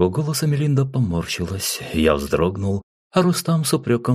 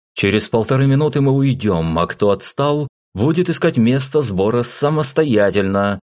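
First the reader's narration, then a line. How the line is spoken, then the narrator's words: Loud, nearly shouting. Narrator (Russian): громко произнес Айзек, почти крикнул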